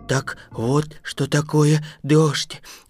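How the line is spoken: Muttering. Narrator (Russian): бормотал страшило

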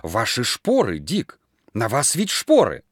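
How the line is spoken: Horrified exclamation. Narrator (Russian): Люд воскликнула в ужасе

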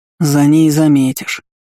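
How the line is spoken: Good-natured grumble. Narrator (Russian): беззлобно проворчал первый

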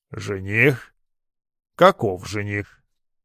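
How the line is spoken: Muttered through teeth. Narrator (Russian): процедил мельник

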